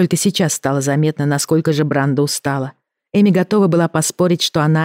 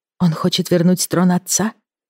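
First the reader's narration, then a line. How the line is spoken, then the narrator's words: Gentle question. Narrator (Russian): мягко спросила Эми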